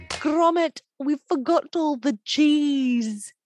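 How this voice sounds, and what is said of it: Bad put-on British accent. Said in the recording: “say in my worst British accent”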